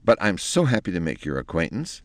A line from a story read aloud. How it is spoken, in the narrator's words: said Penelope in a relieved tone